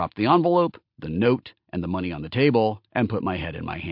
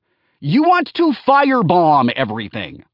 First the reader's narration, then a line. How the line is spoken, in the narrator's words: I yelled back at him